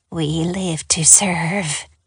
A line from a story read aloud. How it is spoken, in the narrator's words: murmured